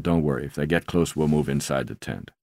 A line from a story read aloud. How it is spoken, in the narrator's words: Buried deep in his sleeping bag, his voice thick with sleep, Mark mumbled